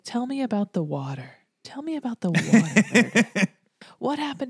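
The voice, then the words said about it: Impression of Denny. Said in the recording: “It's a really good Denny impression.”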